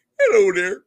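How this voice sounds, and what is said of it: Poor Kermit-like impression of a voice. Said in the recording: “That was a terrible impersonation of him ... talks like Kermit the fucking Frog”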